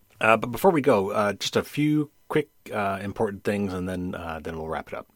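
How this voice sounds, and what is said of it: Slightly hoarse voice. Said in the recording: “I think you could even tell my voice is a little bit hoarse. ... I've been talking for 2 straight hours. So That would probably explain the voice.”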